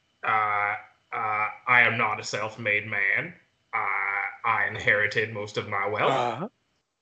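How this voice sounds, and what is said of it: Cartoon capitalist character voice. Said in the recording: “I sound like a classic capitalist in a cartoon”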